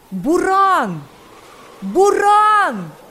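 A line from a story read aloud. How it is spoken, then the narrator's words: Frantic shouting voices. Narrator (Russian): Истошно закричали несколько голосов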